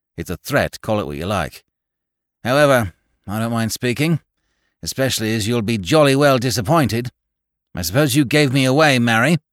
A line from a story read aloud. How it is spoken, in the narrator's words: said Goyles sullenly